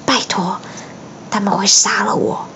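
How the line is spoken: Deep, grave voice. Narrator (Chinese): 哈利沉声说

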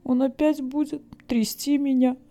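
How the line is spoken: Sobbing like hurt child. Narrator (Russian): она всхлипнула, как обиженный ребенок

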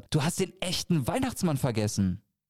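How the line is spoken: Aghast shout. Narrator (German): rief Tom entgeistert

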